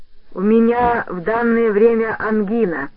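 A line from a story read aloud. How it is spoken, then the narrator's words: Thicker deep bass. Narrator (Russian): сказал мистер Ричардсон еще более густым басом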